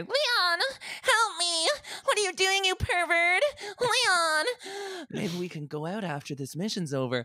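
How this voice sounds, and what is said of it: Impression of Ashley from Resident Evil. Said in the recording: “That was a very good impression”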